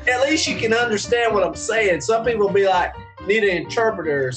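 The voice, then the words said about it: Strong regional accent, hard to understand. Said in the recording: “my accent is as far left from you guys ... I could listen to your accent all day ... I need the interpreter, that's for sure”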